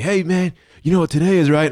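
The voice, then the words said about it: Poor imitation of another person's voice. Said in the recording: “that was a terrible Dan impersonation ... I don't do a good Dan. I don't do good impersonations.”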